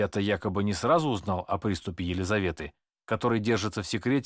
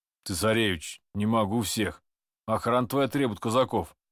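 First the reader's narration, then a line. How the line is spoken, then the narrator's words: Deep-voiced grumble. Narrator (Russian): пробурчал басовитым голосом старший среди моих казаков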